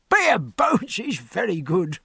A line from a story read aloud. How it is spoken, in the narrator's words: said Welby, chuckling into his wine glass